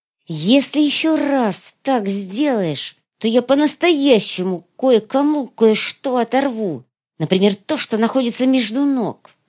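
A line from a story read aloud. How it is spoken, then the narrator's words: Hissing. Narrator (Russian): прошипела Светлая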